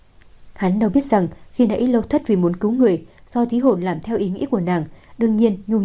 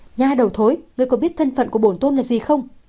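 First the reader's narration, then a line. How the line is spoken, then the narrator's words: Furious. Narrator (Vietnamese): Trương Mệnh tức giận đến đỏ bừng cả mặt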